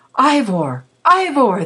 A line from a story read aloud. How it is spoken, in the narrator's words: they cried